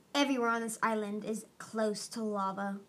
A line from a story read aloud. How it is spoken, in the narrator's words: Marcia growled